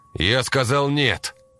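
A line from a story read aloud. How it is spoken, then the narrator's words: Steady shout. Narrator (Russian): Крикнул я, и на этот раз мой голос не сорвался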